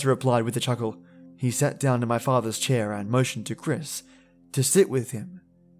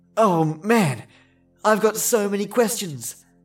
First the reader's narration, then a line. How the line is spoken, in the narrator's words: Chris exclaimed